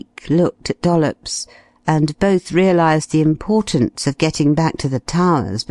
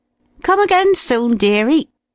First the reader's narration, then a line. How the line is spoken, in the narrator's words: chorused a score of voices